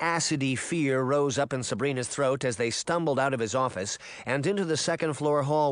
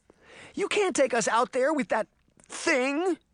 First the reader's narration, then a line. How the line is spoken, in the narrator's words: Sabrina cried